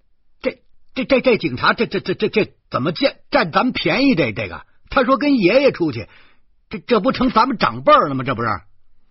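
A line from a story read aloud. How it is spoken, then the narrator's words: Angry stuttering shout. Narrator (Chinese): 我就怒了，叫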